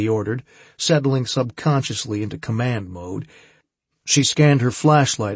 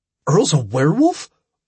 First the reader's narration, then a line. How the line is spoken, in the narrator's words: blurted